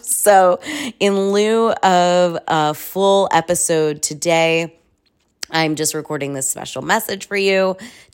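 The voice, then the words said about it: Hoarse, fading voice. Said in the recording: “I'm losing my voice. I'm a little bit under the weather”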